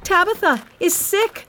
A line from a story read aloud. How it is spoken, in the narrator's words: she shouted to all the poor widows from the church